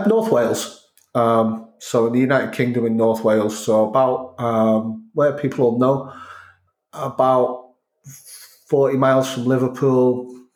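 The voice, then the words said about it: Northern English accent with Scouse touches. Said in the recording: “That's why I've got this accent. ... It's a great accent. Sounds like the Beatles almost. ... There's a bit of Scouse in there. There's a bit of Manchester in there ... the odd word comes out Welsh”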